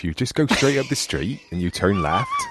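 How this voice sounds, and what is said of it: Put-on West Country accent. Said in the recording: “can you do the accent like can, West I, Country? ... West Country talking”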